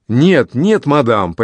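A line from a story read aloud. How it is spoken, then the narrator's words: Near shout. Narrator (Russian): почти кричал де Крессе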